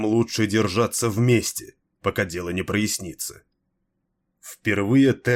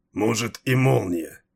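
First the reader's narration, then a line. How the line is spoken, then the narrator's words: Angry grumble. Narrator (Russian): злобно пробурчал Малхион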